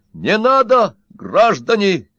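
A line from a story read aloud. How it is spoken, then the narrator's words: Shout. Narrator (Russian): закричал Удалов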